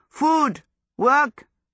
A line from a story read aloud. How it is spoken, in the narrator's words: yelled